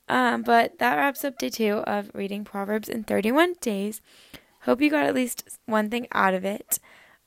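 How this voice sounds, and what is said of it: Strained, partly lost voice. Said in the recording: “my voice is kind of getting gone. It's still a little gone from my church retreat.”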